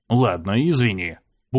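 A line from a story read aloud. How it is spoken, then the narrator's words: Grumbled. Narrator (Russian): буркнул я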